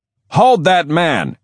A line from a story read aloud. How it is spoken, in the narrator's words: he shouted to the policeman